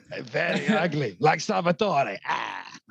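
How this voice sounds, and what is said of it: Character impression of film character. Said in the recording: “can you do an impression of Salvatore? ... Yeah, very good. ... It's my favourite impression ever.”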